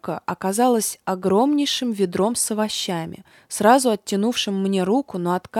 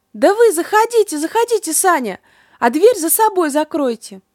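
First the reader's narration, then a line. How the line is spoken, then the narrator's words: Shouting from behind door. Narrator (Russian): она закричала мне из-за двери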